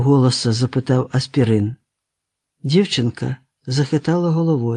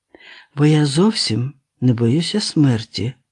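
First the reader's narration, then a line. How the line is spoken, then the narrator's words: Calm. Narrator (Ukrainian): спокійно озвалася Олена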